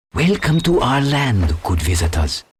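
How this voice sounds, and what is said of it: Stereotypical Chinese accent. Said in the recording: “Every Chinese stereotype you can think of ... Stereotypical accent?”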